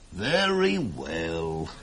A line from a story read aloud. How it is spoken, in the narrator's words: sighed her uncle, a soft-hearted guy